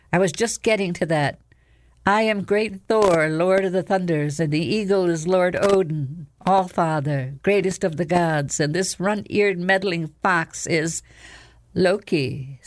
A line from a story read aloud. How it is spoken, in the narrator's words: said the fox smoothly